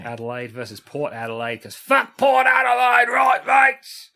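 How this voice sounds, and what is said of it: Bad put-on Australian accent. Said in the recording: “That's the worst version ... Of an Australian ... Accent.”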